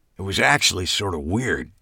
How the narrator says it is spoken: admitted quietly

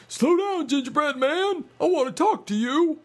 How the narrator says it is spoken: the dog barked

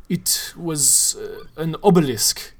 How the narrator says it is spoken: he said gravely

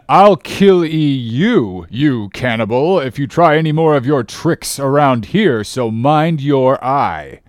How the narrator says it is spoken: roared the captain

